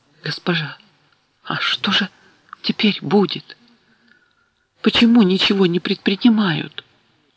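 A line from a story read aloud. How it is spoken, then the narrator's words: Trembling whisper. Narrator (Russian): Керт шепнула дрожащим голосом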